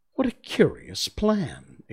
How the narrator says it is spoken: exclaimed Alice

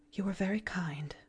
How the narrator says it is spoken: murmured Miss Polly

